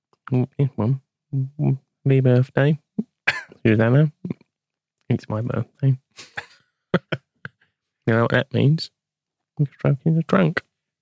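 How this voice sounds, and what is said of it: Impression of Ken Bates. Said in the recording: “just do the voice ... in the voice of Ken Bates”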